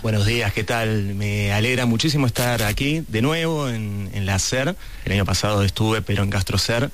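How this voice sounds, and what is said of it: South American Spanish accent. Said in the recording (Spanish): “acento sudamericano”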